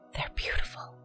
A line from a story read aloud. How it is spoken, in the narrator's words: she couldn't help but whisper